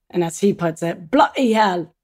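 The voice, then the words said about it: Put-on British accent. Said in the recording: “That's the end of the British accent though... no more impersonations”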